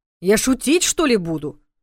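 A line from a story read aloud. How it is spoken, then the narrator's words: Mock indignant reply. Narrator (Russian): нарочито возмущенно отозвался Соболев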